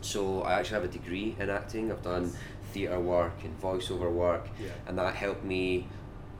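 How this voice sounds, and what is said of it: Scottish accent, slowed and softened. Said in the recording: “I know I sound quite Scottish. This isn't my normal accent. I've got quite a quick Scottish accent usually.”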